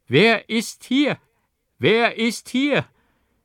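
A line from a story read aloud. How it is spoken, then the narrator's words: Old man, louder call. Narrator (German): der Alte rief noch stärker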